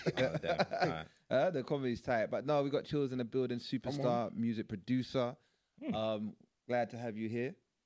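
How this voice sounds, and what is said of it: Put-on American accent. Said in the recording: “Where did this American accent come from? ... You just put an American accent.”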